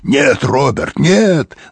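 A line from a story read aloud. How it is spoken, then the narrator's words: Shouting. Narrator (Russian): закричал он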